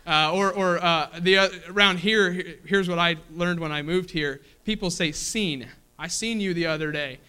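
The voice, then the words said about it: Kentucky accent. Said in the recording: “I have my Kentucky accent there still”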